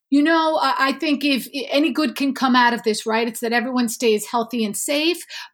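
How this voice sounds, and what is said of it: New York City accent. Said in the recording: “I am normally in New York City in Manhattan, home sweet home, if the accent doesn't give it away”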